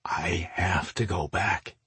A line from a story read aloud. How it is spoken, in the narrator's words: he said in a grim tone